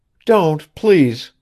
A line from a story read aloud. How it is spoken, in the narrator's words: she cried, recovering herself almost at once